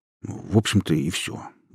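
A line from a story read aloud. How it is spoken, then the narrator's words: Grumbled. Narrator (Russian): буркнул Май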